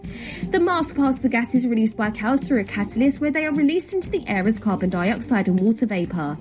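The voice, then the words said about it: Noticeable accent. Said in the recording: “there's an accent there, no doubt about it”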